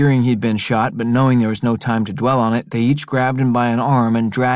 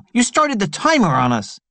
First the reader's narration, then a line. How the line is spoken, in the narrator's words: Tea Cake shouted at Roberto